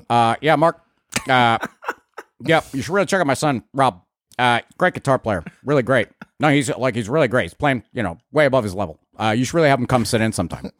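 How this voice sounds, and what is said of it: Imitates another person's voice. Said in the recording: “my Al impersonation.”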